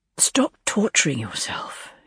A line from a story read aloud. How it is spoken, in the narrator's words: he sighed